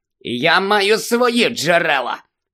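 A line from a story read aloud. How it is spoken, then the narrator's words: Smug hiss. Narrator (Ukrainian): самовдоволено просичав Філч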